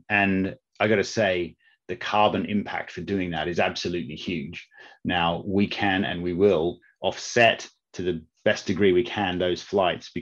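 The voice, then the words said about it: Australian accent with a twang. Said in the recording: “you can hear the Australian twang in my voice.”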